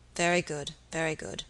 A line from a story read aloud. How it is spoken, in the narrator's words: muttered the baronet